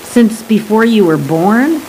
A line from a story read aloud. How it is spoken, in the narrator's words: The geologist giggled, an infectious cotton candy sound